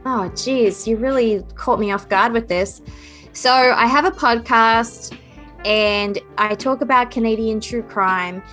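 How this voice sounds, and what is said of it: Unusual Australian-Canadian mixed accent. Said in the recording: “I have a strange accent because I originally come from Australia, but I've been living here for 12 years ... I do have that strange accent”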